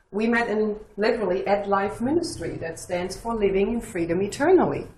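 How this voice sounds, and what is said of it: Speaks with a foreign accent. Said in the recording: “as you hear my accent”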